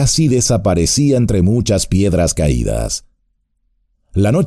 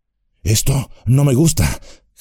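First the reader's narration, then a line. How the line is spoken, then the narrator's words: Panting. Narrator (Spanish): jadeó Sam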